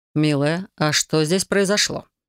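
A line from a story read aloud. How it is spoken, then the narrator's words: Calm question. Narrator (Russian): спросил он так спокойно, словно все было в рамках привычного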